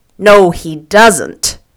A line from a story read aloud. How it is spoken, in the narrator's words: said Tom coldly